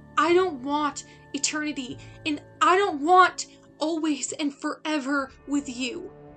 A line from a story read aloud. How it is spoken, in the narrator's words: she yelled, letting her voice boom down the street